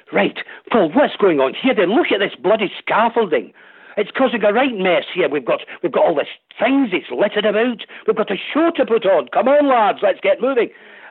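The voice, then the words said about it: Edinburgh Scottish accent. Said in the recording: “just let me do this rehearsal in an Edinburgh accent.”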